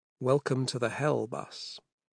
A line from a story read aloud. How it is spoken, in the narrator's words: she said to him wearily